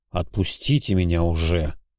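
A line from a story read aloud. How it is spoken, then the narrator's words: Displeased grumble. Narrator (Russian): недовольно буркнул я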